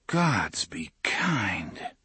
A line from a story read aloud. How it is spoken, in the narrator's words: Alain whispered